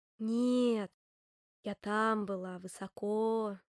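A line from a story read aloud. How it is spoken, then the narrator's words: Sighing pine cone. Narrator (Russian): вздохнула шишка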